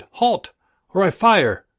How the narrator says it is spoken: He cried

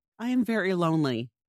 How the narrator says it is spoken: Reese said

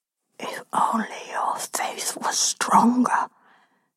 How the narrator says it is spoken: whispers, full of glee in my ear

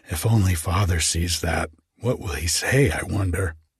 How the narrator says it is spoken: laughed and whispered among ourselves

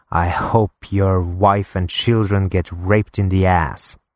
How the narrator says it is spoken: hissing

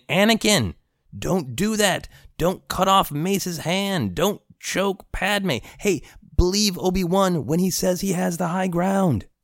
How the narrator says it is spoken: he's just screaming

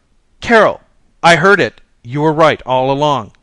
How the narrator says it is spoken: running downstairs, shouting

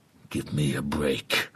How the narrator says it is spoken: growls Bradley

